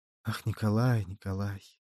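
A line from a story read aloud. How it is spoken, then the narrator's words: Sighing. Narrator (Russian): Она вздохнула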